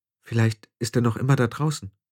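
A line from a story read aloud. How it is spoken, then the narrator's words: Murmuring. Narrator (German): murmelte Tiffany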